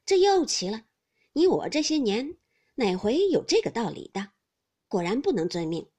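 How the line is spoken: Laughing. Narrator (Chinese): 冯子英笑道

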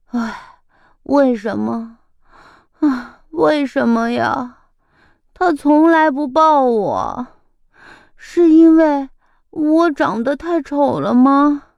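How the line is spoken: Soft sigh. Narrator (Chinese): 小鼻涕虫边说边轻轻叹了口气

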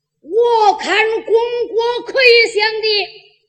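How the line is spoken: Loud shout. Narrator (Chinese): 有人高喊

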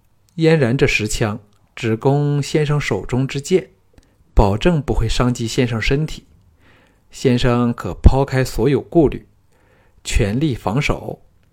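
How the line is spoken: Calm flat. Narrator (Chinese): 姬嫣然淡淡的说

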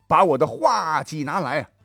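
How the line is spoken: Loud commanding shout. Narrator (Chinese): 吕布大叫一声

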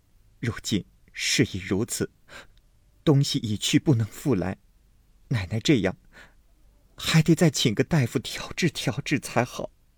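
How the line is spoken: Crying. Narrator (Chinese): 平儿哭道

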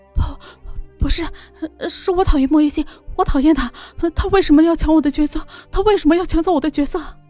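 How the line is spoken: Sobbing under pressure. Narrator (Chinese): 千羽衣在记者的逼迫下顶不住压力，痛哭着说出了真相

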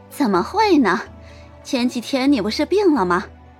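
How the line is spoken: Ingratiating, gentle. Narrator (Chinese): 陈氏赶紧陪着笑，脸上尽显着温柔

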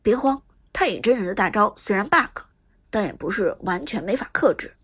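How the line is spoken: Calm low voice. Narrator (Chinese): 苏哲却相对冷静一些，低声道

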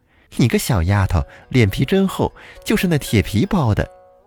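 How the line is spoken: Laughing loudly. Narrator (Chinese): 少妇大笑着说

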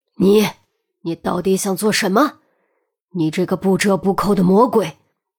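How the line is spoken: Shocked, furious shout. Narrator (Chinese): 约翰惊怒喝道

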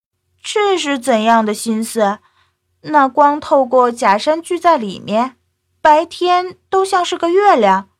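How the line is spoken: Amazed, admiring. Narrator (Chinese): 小鱼儿惊讶的，不时啧啧赞叹

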